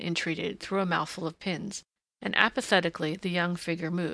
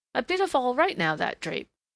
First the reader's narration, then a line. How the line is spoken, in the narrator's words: the woman chirped